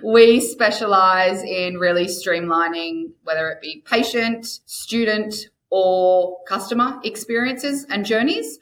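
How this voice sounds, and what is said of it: Australian accent. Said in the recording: “Nexa is an Australian company, surprise, surprise, by the accent.”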